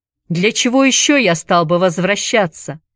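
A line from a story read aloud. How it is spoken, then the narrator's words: Shouting after someone. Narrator (Russian): крикнул он ей вслед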